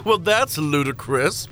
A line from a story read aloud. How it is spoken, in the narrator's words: the king chuckled, as if I had joked about some kind of preposterous situation